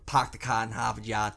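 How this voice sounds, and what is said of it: Put-on Boston accent. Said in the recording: “I can't do a Boston accent, I'm going to stop doing it. ... No, keep going, it's great.”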